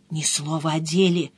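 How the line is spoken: Conspiratorial hiss in ear. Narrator (Russian): заговорщицки прошипела на ухо

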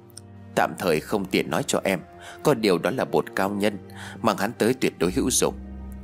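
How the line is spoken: Low voice. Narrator (Vietnamese): Tôi nhỏ giọng rồi nói

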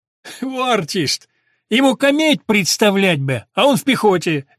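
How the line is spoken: Laughing. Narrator (Russian): засмеялся Пафнутьев

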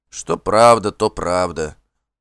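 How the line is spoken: Dejected confirmation. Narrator (Russian): упавшим голосом подтвердил хозяин

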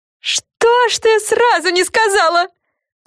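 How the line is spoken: Screaming. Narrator (Russian): завопила Фрэн

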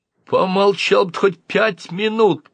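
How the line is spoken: Groaning. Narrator (Russian): простонал тот

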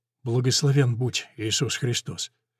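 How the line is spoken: Old man muttering. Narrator (Russian): старик пробормотал

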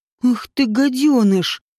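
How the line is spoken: Hissed with feeling. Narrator (Russian): с чувством прошипел Вааш

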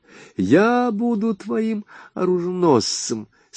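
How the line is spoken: Laughing announcement. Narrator (Russian): смеясь объявила она

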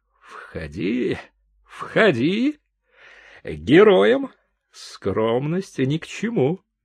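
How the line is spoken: Mocking. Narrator (Russian): Генерал насмешливо сказал

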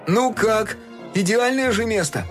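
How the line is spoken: Shouted. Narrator (Russian): крикнул Фил

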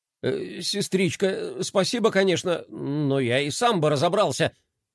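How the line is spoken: Embarrassed mutter. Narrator (Russian): сконфуженно пробормотал Флай

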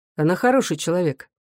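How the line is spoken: Dry remark. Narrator (Russian): Павел сухо заметил

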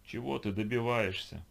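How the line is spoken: Moaning. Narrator (Russian): простонал он

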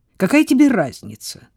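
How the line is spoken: Irritated question. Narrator (Russian): раздраженно спросила Сара

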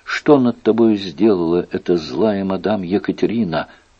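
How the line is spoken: Insistent whisper. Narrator (Russian): настойчиво шептал

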